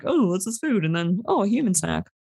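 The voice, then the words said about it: Playful bear character voice. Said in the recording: “best bear impression. You really got into the headspace of the bear.”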